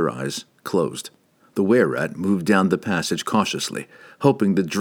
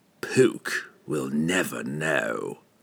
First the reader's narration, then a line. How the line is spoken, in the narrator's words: Entreri hissed back